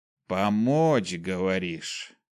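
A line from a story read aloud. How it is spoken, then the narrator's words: Appraising drawl. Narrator (Russian): Оценивающий протянул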